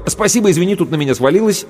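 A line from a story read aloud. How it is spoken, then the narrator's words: Quick. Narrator (Russian): я быстро сказал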